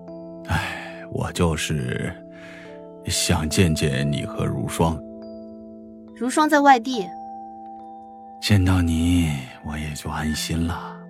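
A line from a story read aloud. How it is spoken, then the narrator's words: Soft sigh. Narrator (Chinese): 史嘉诚轻轻的叹了口气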